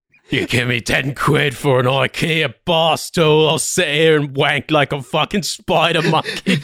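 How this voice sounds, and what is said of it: Australian accent impression of another person. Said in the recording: “Australian Tommy Walsh.”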